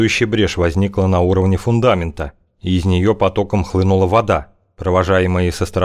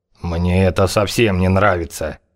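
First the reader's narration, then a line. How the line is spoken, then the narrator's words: Worried, through gritted teeth. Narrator (Russian): сквозь зубы процедил Хавар, похожий в самом деле чем-то сильно обеспокоенный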